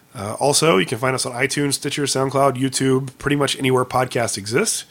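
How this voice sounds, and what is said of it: Raspy, nearly lost voice. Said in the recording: “my voice is like pretty much gone ... you sound kind of raspy there ... That's kind of what you sound like, an orc.”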